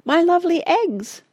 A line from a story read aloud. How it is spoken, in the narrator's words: squeaked Tabitha